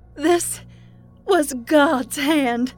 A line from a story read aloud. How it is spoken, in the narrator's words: Maureen cried with glee